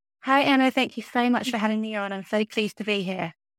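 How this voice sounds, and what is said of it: British accent. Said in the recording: “she's from the United Kingdom and has that lovely UK accent.”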